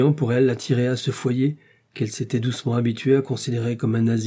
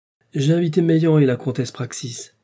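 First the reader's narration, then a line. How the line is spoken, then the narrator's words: Curt, clipped. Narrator (French): dit Blanche d'un ton bref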